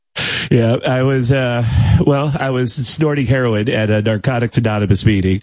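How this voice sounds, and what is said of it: Imitates another person's voice. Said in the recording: “Damn, that's a good impression. ... Fake Tom Arnold”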